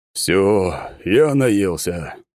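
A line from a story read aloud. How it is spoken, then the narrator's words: Groaning. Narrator (Russian): простонал Тимофей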